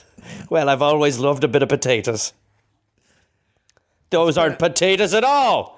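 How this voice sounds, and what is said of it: Put-on Irish accent. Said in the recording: “an Irish accent”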